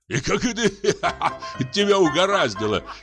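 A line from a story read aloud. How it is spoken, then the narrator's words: Laughing. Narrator (Russian): смеялись чиновники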